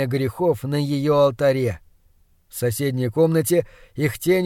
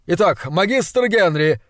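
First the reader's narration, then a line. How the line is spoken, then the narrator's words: Unusually cheerful exclamation. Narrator (Russian): воскликнул он, смутив меня непривычно веселым голосом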